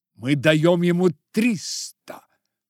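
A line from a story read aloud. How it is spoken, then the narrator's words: Exclamation. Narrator (Russian): воскликнул Фрид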